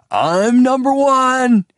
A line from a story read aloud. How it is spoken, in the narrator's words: shouted